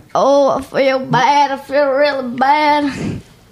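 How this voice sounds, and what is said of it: Weird old person voice. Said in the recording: “That's a pretty good Jack imitation ... I'm trying to be a weird old person”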